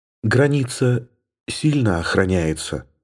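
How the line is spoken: Whisper. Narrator (Russian): прошептала она

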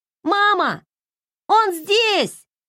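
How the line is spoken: Child shouting. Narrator (Russian): крикнул сын

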